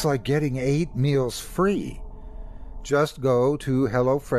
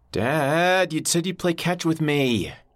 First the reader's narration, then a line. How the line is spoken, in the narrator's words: yelled